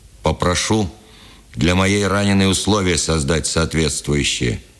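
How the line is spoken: Stern command. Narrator (Russian): велел строго

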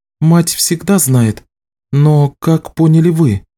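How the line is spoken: Sighing. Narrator (Russian): Ричард вздохнул

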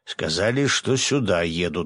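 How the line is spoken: Snorting grunt. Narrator (Russian): хмыкнул Свят

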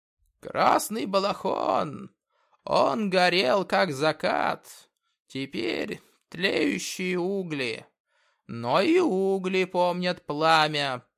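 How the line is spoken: Creaky, smiling. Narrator (Russian): проскрипел он, улыбнувшись

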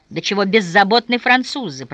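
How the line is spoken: Grumbling. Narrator (Russian): проворчал Розников

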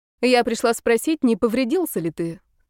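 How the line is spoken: Calm reply. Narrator (Russian): спокойно отвечала Мельникова

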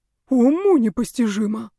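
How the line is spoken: Breathless exhale. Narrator (Russian): выдохнул

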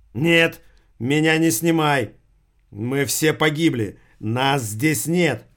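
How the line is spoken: Sudden yell. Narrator (Russian): вдруг заорал Алик

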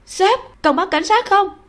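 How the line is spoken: Piercing shriek. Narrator (Vietnamese): Tinh Tinh thét chói tai

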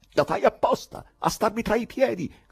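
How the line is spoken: Furious shout. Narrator (Italian): gridò Ivan infuriandosi

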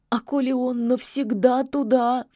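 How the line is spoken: Sobbing witch. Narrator (Russian): всхлипнула ведьма

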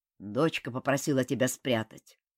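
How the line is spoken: Dry old woman's voice. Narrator (Russian): сухо сказала старуха

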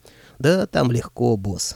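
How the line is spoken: Smug snort. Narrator (Russian): самодовольно хмыкнул Аристофан

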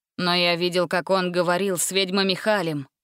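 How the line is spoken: Gloomy. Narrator (Russian): мрачно добавил Дженкинс

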